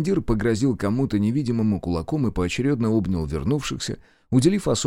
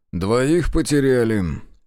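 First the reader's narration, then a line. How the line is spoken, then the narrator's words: Grumbled mutter. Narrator (Russian): буркнул Зотов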